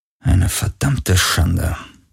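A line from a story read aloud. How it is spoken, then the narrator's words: Murmuring. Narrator (German): murmelte er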